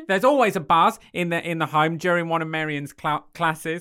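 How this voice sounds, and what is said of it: Put-on Australian accent. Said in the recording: “She sounds like our decorator ... She's going Australian ... she's going to stay Australian”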